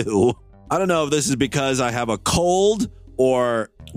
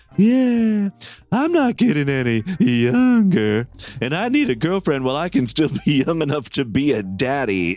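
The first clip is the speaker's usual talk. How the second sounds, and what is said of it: Put-on character voice. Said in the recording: “I can still do the Mead voice? I should do the whole show as Mead.”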